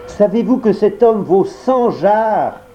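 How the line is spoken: Shouted. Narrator (French): cria Perkel

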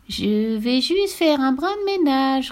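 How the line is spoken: Sly snicker. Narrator (French): ricana-t-elle sournoisement

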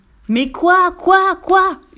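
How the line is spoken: Fox yelling. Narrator (French): hurla le renard

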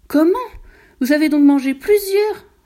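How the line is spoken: Exclaiming. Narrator (French): s'écria Delphine

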